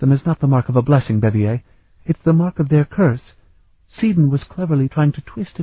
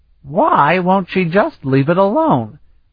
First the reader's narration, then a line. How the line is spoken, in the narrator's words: Vanyan exclaimed